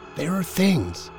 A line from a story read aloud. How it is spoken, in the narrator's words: Dale said almost in a whisper